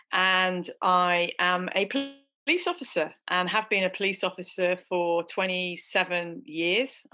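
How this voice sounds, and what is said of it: Southeast English accent. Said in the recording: “I was brought up in the southeast of England in the UK. So I'm in the UK. You'll guess that by the accent”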